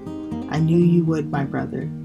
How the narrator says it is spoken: Josiah replied

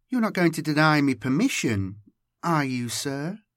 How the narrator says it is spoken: she asked sweetly

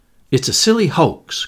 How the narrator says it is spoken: cried Virginia, angrily

